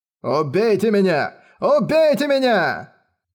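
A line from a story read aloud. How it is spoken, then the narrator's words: Wild yelling. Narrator (Russian): Вопил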